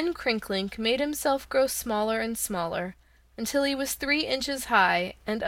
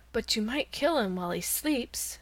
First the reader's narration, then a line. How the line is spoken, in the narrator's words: suggested the cat in a soft voice